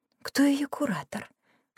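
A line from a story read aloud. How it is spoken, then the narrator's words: Whispered question, lady. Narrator (Russian): шепотом спросила одна из дам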